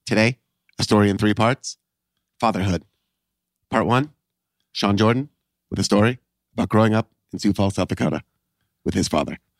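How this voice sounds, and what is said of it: Ira Glass impression with pauses. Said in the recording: “what I assume is a good Ira Glass impression. I think it's an okay Ira Glass impression ... One's pretty solid ... It's the pauses guy. That sell it.”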